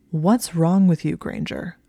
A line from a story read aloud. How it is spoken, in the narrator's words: he spoke in a low, demanding voice